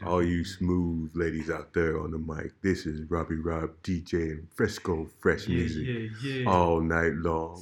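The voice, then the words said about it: Smooth late-night radio DJ voice. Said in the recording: “put on your radio voice ... late night radio”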